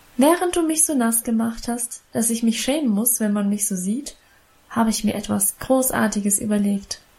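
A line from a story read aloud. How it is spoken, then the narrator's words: Plain. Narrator (German): sagte sie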